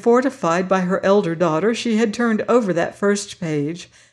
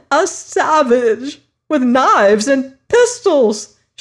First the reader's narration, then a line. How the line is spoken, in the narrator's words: she wailed